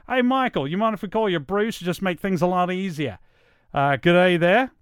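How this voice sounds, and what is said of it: Put-on Australian accent. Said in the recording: “this accent came directly from Monty Python, but I watched a lot of Crocodile Dundee when I was a kid”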